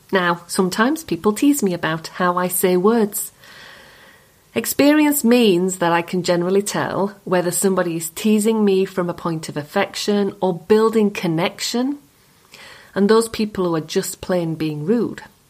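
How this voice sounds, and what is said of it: Yorkshire accent. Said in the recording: “My accent. It's a Yorkshire accent.”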